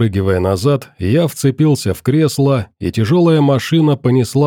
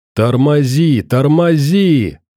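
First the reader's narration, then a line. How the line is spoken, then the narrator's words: Yelling over howling wind. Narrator (Russian): заорал я, пытаясь перекричать завывание ветра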